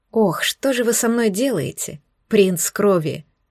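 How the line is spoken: Unspoken inner thought. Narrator (Russian): Я мысленно проговорила про себя

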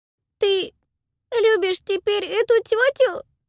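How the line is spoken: Sobbing child. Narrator (Russian): рыдала ребенок

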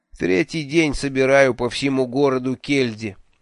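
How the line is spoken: Gloomy. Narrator (Russian): мрачно сообщил

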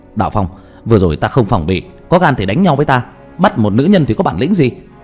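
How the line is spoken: Shouting through gritted teeth. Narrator (Vietnamese): nghiến răng nghiến lợi nhìn Đạo Phong hét lên

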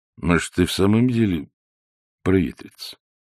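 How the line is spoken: Uncertain. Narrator (Russian): сказал он неуверенно

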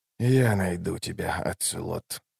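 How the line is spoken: Whispered. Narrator (Russian): прошептал Ном

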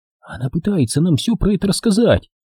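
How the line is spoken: Whispered. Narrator (Russian): прошептала Элли

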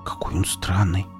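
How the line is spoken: Whispered. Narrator (Russian): прошептала Оля

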